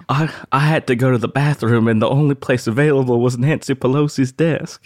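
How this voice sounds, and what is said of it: Weak Forrest Gump character impression. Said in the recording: “Not a good Forrest Gump impression,”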